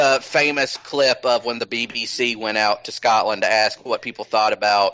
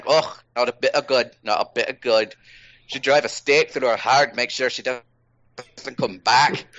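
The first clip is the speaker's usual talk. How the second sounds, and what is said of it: Put-on old Scottish woman's accent. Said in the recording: “That was my Scottish accent. ... Yeah, not bad.”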